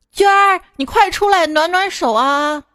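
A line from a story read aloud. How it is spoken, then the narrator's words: Calling out loudly. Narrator (Chinese): 一个姐姐对里面的一个护士就喊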